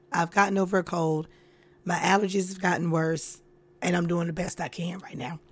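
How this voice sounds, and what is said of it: Strained, quieter, lower-pitched voice. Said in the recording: “my voice sounds different from the intro ... my voice has been gone. So I can't scream, I can't yell, I can't get loud. I have to talk in this tone or I have to talk lower”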